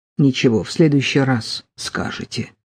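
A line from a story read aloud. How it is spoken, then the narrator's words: Muttered. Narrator (Russian): пробормотал Троепольской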